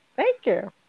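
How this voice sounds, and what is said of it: Mickey Mouse impression. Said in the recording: “You kind of sound like Mickey Mouse. ... You have a good Mickey Mouse impersonation.”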